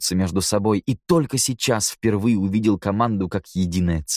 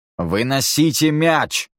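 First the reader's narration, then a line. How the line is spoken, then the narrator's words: Barked command. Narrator (Russian): рявкнул Ваймак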